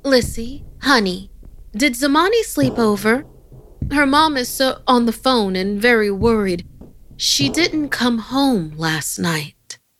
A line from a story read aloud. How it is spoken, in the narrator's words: My mom answered, then called out